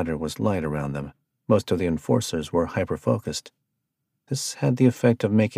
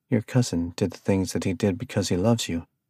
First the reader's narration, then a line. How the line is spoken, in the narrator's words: Arthur said finally